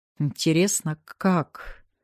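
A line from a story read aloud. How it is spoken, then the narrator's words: Muttering aloud. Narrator (Russian): Это я пробормотала вслух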